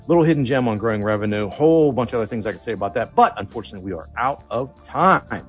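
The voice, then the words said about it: Out of breath speaker. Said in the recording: “Whew! I'm out of breath here.”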